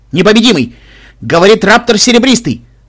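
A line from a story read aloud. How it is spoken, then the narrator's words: Frightened shout over radio. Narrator (Russian): закричал испуганный голос на военной чистоте Анклава в моем ухе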